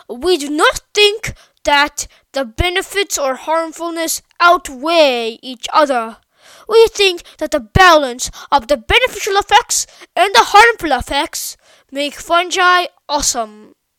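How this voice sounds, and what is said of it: Fancy scientist accent. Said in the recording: “my fancy scientist accent ... Sorry if that was a little rusty.”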